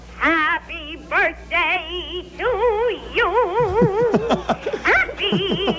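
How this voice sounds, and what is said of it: Sung imitation of another person's voice. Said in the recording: “my Ethel Merman impersonation ... Here's my Ethel”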